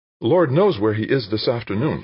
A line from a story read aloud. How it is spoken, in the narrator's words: she said